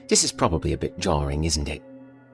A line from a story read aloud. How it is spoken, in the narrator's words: she asked